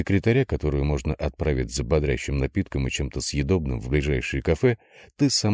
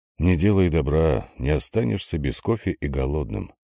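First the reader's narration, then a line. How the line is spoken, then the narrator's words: Sighing. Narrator (Russian): вздохнул Владимир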